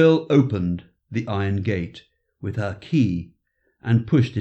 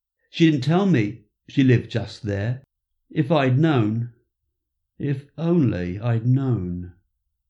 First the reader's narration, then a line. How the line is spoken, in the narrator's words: said Paul sadly